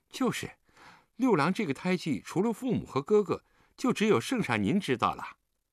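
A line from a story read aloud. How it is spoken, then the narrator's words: Smiling. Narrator (Chinese): 张苍忠微笑道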